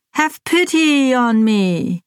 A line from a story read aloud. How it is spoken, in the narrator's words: wail in a loud voice